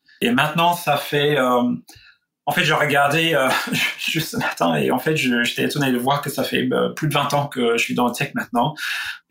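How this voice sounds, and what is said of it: Slight Australian accent speaking French. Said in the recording (French): “Tu as un léger accent ... il y a un petit accent ... Je suis australien.”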